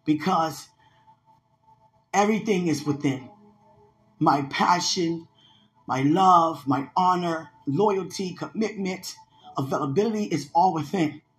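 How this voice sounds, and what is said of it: Shaking, emotional voice. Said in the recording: “I know you hear my voice is shaking”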